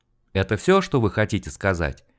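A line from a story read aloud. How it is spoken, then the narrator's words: Calm question. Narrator (Russian): Спокойно поинтересовался опер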